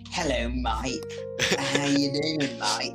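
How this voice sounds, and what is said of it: Mock British accent. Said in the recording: “If they're like really obnoxious and really annoying and they have a British accent”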